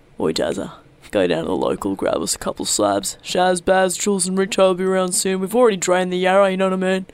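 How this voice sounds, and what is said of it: Put-on broad Australian character voice. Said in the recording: “it's the Australian Christmas ... I'll be doing the voices.”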